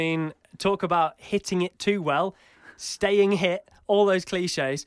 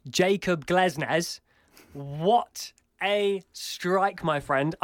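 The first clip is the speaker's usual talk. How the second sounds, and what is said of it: Put-on British accent. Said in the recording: “in my best British accent.”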